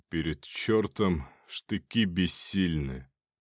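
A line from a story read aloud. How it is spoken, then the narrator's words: Gloomy. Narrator (Russian): сказал он и мрачно опустил голову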